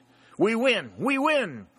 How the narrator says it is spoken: cried Pennington again

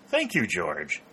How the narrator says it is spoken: said Dick happily

